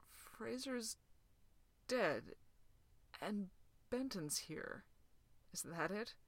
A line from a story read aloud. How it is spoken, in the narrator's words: his voice was hoarse